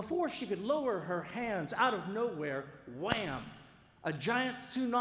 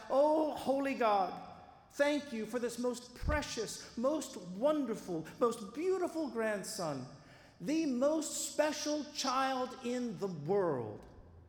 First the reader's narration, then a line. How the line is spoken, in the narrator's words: raising her hands in prayer, she cried out